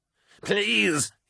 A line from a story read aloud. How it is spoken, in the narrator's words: gasped, his terror making his voice shrill